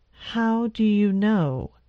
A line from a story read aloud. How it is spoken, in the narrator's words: he asked in a controlled voice